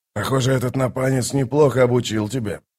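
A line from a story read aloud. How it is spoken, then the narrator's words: Muttering bird. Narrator (Russian): пробормотал скворец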